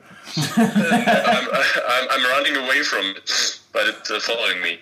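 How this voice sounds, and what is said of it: Baby voice. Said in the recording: “talking with a baby voice”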